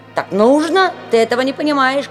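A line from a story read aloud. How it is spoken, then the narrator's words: Shouting. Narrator (Russian): кричал Фриц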